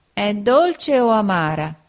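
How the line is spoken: Whining voice. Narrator (Italian): Pinocchio dimanda con voce di piagnisteo

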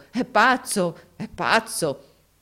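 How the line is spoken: Crowd laughing exclamation. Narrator (Italian): tutti scoppiarono dalle risa, esclamando

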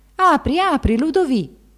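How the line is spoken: Exclaiming from outside. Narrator (Italian): L'abate dall'esterno esclamò

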